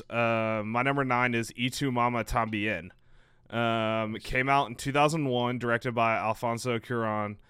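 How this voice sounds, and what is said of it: Texas accent. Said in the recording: “Yes, I do have a Texas accent.”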